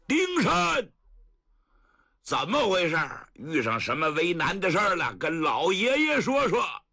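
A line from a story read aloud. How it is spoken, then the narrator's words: Loud call. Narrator (Chinese): 骑马的主高声喊喝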